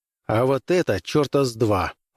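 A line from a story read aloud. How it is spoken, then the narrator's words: Grumbling mutter. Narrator (Russian): буркнул Граймс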